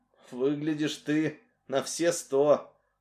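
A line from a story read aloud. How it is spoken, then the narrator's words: Through clenched teeth. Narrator (Russian): процедил он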